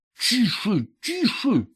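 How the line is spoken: Hissing. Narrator (Russian): зашипел он

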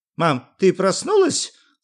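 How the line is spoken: Joyful. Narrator (Russian): радостно сказал Юра

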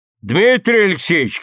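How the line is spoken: Shouting upward. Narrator (Russian): крикнул вверх Селецкий

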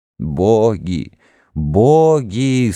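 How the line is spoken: Moaning, weeping crowd. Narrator (Russian): стонал и плакал народ

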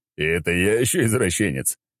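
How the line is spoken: Laughing reply. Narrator (Russian): Я рассмеялся в ответ и заулыбался

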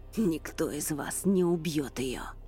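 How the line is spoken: Growled through teeth. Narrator (Russian): прорычал сквозь зубы викинг

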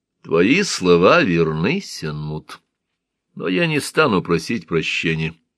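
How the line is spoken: Calm. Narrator (Russian): спокойно сказал

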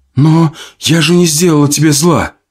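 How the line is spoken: Tearful shout. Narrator (Russian): Сквозь слезы закричала Зоя

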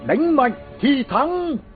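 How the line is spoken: Young king shouting loudly. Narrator (Vietnamese): Vị vua trẻ hét lớn

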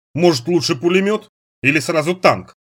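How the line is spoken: Guard's short laugh. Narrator (Russian): хохотнул охранник

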